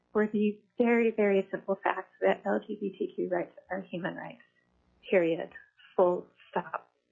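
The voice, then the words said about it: Emotional, slightly shaky voice. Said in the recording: “I'm getting a little emotional here”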